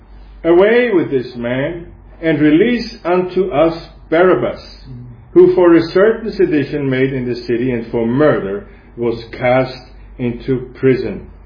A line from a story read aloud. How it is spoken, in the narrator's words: they cried out all at once, saying